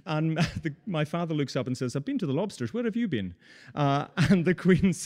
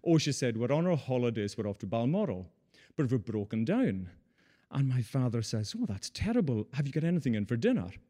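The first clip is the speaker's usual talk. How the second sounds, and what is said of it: Imitates another person's voice. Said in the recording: “That's my Queen accent, by the way.”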